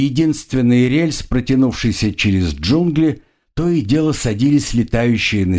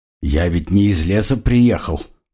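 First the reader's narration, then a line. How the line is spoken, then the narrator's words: Mumbling. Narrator (Russian): пробормотал крокодил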